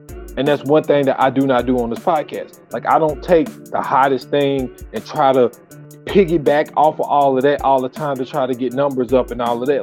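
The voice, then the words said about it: Fast, agitated, angry speech. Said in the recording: “even my tone of voice, how fast I'm speaking, like, I am like, I'm livid right now”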